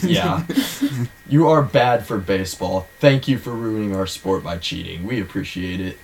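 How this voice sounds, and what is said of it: Heavily sarcastic delivery. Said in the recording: “my voice was loaded with sarcasm”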